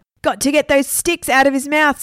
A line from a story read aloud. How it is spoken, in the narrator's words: screamed Stephen